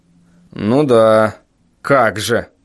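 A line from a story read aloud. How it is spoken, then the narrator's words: Sarcastic snort. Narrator (Russian): саркастически хмыкнул отец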